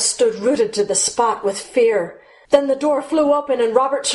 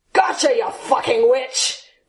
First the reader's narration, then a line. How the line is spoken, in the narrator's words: growled Terrell